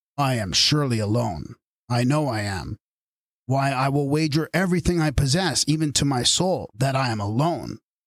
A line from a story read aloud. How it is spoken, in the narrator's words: I remarked in a full, strong voice